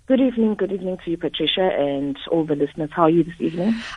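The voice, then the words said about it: Hoarse, flu-affected voice. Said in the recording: “I've got a very hoarse voice. I'm going down with the flu”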